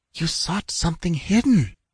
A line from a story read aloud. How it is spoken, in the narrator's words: whispered Tassela, cringing back